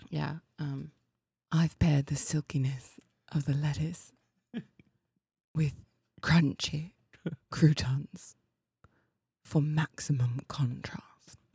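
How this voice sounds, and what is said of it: Nigella Lawson impression. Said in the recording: “I'm better at accents ... Nigella”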